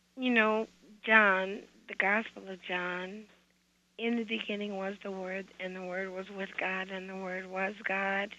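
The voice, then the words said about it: Hoarse voice. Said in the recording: “I'm kind of hoarse right now.”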